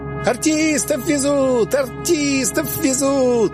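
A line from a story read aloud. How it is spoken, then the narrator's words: Boys shouting. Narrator (Russian): Босоногие мальчишки, похожие на чумазых оборвышей, побежали следом за нашей колонной и закричали, как жирный бюргер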